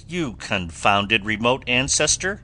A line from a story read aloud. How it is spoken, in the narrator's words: thundered the great strategist